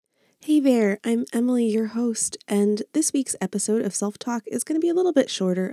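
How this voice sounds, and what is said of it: Sick, strained voice. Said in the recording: “you may be able to tell from my voice, I'm sick and I'm having a hard time talking”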